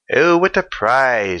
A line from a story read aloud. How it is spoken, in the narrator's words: she exclaimed